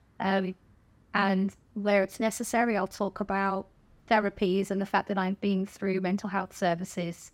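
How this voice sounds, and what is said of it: Posh southern English accent. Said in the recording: “they'll hear my voice and think, oh, posh accent. ... She's from down south. ... I did think you were really posh. ... it's just an accent”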